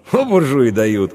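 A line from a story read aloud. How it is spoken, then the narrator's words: Snorting. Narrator (Russian): хмыкнул Иван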